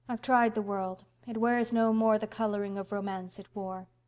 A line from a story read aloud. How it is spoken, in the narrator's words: sighed Anne